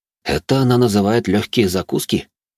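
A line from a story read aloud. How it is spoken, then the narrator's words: Muttering. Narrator (Russian): буркнул я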